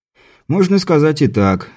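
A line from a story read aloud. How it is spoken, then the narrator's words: Sighing. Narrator (Russian): Сан Саныч вздохнул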